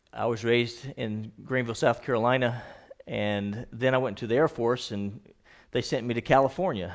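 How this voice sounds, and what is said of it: Slight Southern US accent. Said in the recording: “a little bit of a southern accent when I talk, and especially when I get to preaching”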